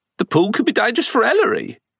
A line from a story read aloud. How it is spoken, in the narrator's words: Phyllis blurted out the words as if the thought had just occurred to her